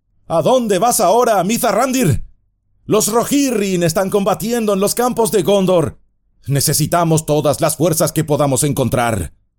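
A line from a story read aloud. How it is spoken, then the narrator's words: Shouting. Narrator (Spanish): el príncipe Imrahil, quien les gritó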